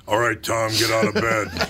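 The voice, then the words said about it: Imitates another person's voice. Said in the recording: “a really good impression of my mother ... She had the pipes on her, man.”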